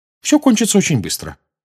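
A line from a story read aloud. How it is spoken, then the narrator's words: Encouraging tone. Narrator (Russian): подбадривающим тоном сказал мистер Уизли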